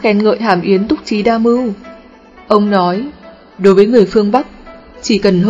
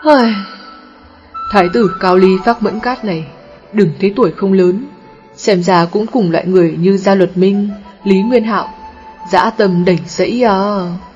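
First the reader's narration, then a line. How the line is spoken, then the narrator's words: Weary sighing. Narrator (Vietnamese): Triệu Phổ thở dài, nói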